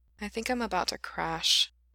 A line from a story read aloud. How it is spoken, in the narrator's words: he said faintly